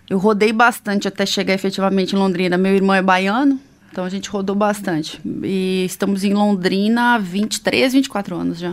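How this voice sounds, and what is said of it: Gaúcho Southern Brazilian accent. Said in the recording (Portuguese): “Eu sou gaúcha. ... tu, tu, não percebeu o sotaque?”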